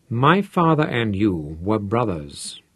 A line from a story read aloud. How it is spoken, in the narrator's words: said Manfred